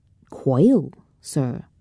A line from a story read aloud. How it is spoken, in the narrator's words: said Allburns